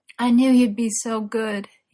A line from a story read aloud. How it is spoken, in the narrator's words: he groaned